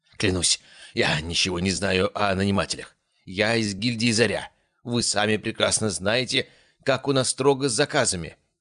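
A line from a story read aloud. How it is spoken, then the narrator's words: Prisoner's moan. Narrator (Russian): простонал пленник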